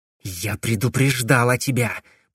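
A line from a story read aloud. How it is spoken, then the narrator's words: Hissed. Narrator (Russian): прошипела Корделия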